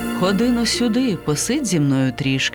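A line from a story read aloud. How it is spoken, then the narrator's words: Plain. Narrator (Ukrainian): сказала вона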